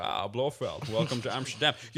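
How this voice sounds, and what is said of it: Sean Connery impression. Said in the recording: “when I'm doing Sean Connery ... you got to start with a real good trigger word like, Junior”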